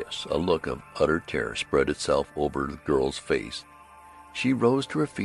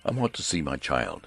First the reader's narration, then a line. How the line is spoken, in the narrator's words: said Mr